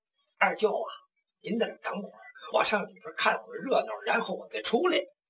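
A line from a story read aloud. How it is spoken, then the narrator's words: Soft muttering. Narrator (Chinese): 黄九龄就跟殷琦轻轻的嘀咕了一声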